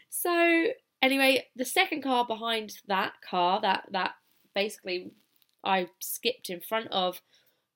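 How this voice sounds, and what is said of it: British accent. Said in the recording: “I've still got my British accent”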